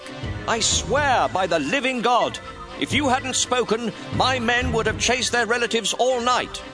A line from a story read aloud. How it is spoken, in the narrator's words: Joab shouted back